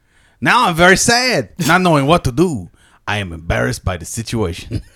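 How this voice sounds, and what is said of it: Poor put-on Brazilian accent. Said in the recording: “Worst Brazilian accent ever.”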